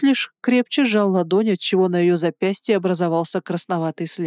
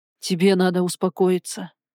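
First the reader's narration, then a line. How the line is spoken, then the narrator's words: Tired. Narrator (Russian): устало проговорил он в ответ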